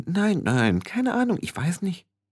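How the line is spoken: Several voices murmuring. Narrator (German): Mehrere Stimmen murmelten

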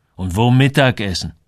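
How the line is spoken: Angry. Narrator (German): Er war immer noch wütend

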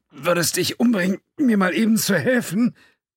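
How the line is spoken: Pleading, strained with exertion. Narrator (German): Als seine Knie durch die Anstrengung weich zu werden begannen, flehte O'Halloran

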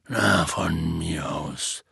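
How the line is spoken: Resigned voice. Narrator (German): sagte Hagrid mit resignierter Stimme

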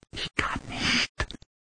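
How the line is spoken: Whispered. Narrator (German): flüsterte Cuthbert

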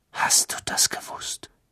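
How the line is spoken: Whisper. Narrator (German): wisperte er

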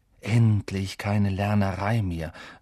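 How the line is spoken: Happy sigh. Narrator (German): seufzte Ron … glücklich

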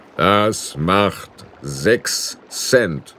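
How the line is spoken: Plain. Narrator (German): sagte er

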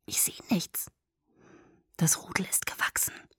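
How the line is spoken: Whisper into ear. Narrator (German): flüsterte Edward mir ins Ohr

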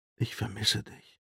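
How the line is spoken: Whispered. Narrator (German): flüsterte er

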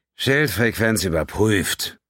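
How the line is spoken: Grumpy, indifferent growl. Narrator (German): knurrte er mit griesgrämiger Gleichgültigkeit

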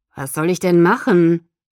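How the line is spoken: Growl. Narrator (German): knurrte

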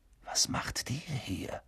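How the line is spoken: Whisper. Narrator (German): flüsterte Harry

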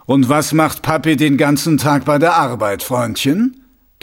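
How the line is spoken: Thundering. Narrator (German): donnerte Mumm

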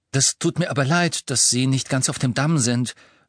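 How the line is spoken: Firm voice, talking over. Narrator (German): sagte Hermine, indem sie mit fester Stimme den kleinen Zauberer übertönte

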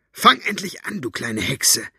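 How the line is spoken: Hissed. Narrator (German): zischte sie

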